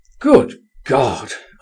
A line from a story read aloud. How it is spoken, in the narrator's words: I exclaimed